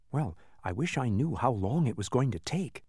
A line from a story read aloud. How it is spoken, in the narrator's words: Milo whispered